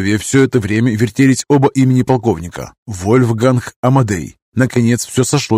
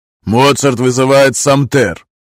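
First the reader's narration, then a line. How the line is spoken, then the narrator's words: Loud giggling. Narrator (Russian): Гай неприлично громко хихикнул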